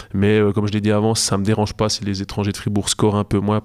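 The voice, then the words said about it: Slight Jura Swiss French accent. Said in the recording (French): “je prononce un petit peu la jurassienne ... les jurassiens, vous avez de l'accent”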